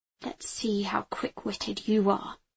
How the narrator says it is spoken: I muttered

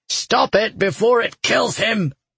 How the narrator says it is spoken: Toron growled

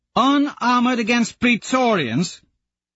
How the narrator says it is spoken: Thistle howls

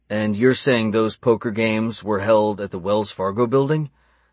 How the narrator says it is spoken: Stephen asked

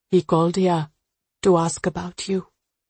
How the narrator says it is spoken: she says softly

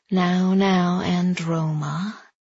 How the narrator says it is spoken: he drawled out her name

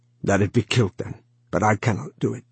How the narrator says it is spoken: he said roughly

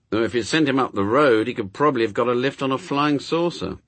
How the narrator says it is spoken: said Newt gloomily

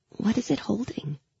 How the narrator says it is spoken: I could still hear Mal's whisper in my ear

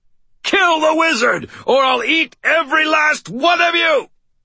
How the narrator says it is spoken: roared

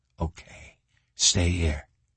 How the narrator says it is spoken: Reacher whispered

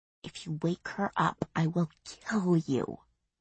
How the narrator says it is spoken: without even moving her lips, she hissed

